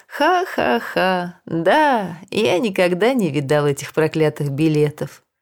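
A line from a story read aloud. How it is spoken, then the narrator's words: Joking, forced laughter. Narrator (Russian): дедушка Пунтуа решил, что и ему нужно засмеяться, и он шутливым тоном ответил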